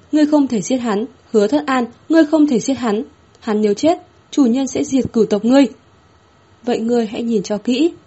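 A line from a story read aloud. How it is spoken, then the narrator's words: Frantic screaming. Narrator (Vietnamese): Tả Sứ điên cuồng hét lên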